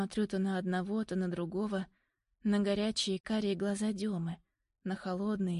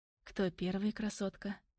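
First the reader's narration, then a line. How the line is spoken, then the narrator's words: Quiet question. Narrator (Russian): Тихо спрашивает Дема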